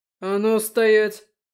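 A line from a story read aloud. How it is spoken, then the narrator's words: Gruff bark. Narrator (Russian): гаркнул второй громила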